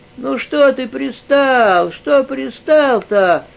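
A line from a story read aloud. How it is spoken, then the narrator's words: Sniffling whine. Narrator (Russian): Вытирая красные сопли, заскулил баптист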